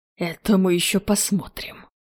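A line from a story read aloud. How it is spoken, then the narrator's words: Hissed. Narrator (Russian): Прошипел Холланд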